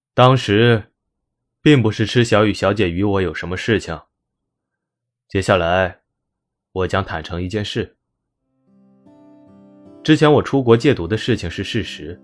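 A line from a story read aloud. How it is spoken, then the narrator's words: Steadied after deep breath. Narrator (Chinese): 深呼吸了一口气，接着说道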